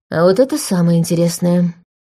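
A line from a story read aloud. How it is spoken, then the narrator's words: Gloomy remark. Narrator (Russian): мрачно заметила Саша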